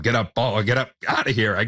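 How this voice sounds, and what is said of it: Imitates a baseball broadcaster's home run call. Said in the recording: “doing my best Buck impression ... He was the voice of Summers for me”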